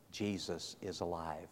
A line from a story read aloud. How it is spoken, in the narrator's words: she said to him in a whispered voice